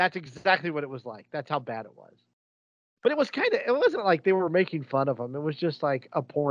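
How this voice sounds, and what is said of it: Usual voice. Nothing is said of it.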